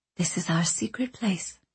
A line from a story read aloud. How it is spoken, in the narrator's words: Anchorette whispered